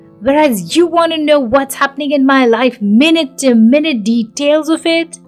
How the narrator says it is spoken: She said, confidently, also angrily

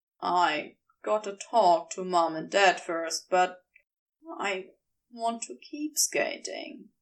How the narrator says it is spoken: he said quietly

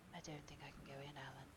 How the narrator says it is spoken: he murmured

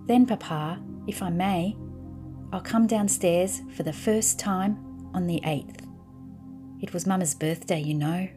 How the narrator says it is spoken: she added in a lower voice

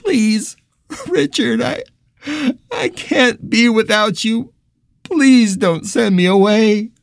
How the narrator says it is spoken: Keith whimper

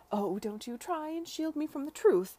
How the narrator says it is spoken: she exclaimed

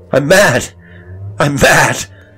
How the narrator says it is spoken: his voice changed

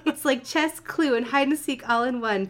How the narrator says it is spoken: Pinkie giggled joyously

